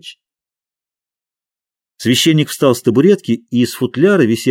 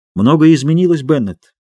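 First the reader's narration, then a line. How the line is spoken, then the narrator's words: Plain. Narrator (Russian): ответил священник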